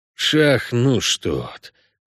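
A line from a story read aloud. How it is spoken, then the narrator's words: Hissing. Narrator (Russian): прошипел Геральт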